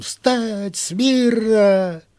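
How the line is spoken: Wild, distorted yelling. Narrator (Russian): заорал не своим голосом

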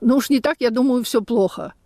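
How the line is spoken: Laughing exclamation. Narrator (Russian): рассмеялась и воскликнула

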